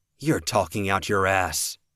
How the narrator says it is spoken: Cody snarled the words

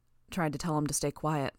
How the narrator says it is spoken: Brian said, his voice low

